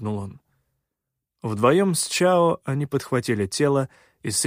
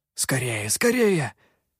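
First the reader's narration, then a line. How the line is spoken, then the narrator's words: Hissing whisper, urging. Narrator (Russian): шипящим шепотом, подгонял он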